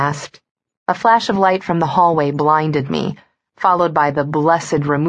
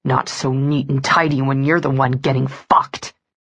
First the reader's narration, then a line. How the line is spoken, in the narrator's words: His chest heaved as he growled